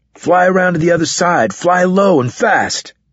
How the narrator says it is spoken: Carlos shouted

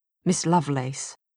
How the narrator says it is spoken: he said in a low voice

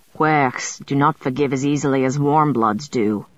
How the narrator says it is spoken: Galaglass said gruffly

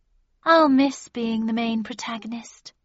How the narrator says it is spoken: she said wistfully

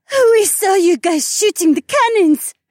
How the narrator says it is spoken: Heiwan squealed

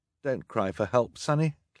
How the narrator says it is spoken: Klaus said

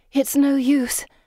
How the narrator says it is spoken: Pippa says, panting

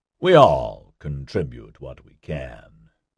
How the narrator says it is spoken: Nigel said in a very condescending tone

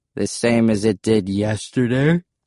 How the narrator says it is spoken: said, yawning

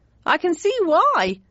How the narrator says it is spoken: exclaimed Joffy

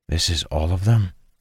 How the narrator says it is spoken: Dalen whispered to Sane

